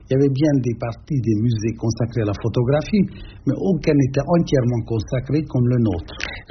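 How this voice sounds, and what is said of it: Hungarian accent in French. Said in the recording (French): “l'accent, là, il vient de Hongrie”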